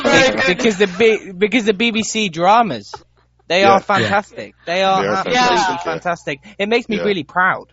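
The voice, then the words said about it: British English accent. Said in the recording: “that's why I love your accent, you know? It's like, it reminds me like the David Attenborough documentary.”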